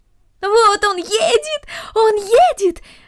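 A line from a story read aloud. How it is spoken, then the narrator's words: Shouting. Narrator (Russian): закричала Корнелли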